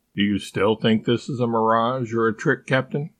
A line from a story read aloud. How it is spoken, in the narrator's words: Albert asked, calmly